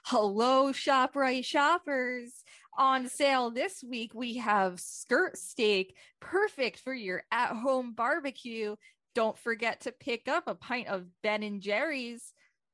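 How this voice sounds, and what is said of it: Imitates a store announcer's voice. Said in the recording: “such a good Drew impression”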